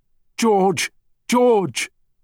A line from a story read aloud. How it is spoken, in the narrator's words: his wife standing at the water's edge, shouting desperately